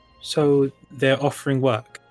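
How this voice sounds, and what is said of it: Imitates a character's accent. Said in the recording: “In my best Mateus accent ... It's a really good Mateus accent”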